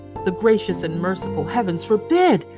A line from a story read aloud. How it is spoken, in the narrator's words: cried Miss Pross